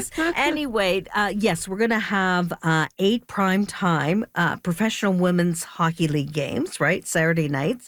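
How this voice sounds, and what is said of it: Hoarse, fading voice. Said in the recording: “Excuse me as I lose my voice on you... I'm losing my voice.”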